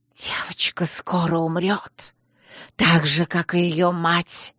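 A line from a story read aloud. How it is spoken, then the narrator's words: Hissing woman. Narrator (Russian): Шипение, вырвавшееся изо рта женщины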